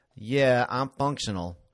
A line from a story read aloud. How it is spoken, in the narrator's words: he said, making his voice flat, if not steady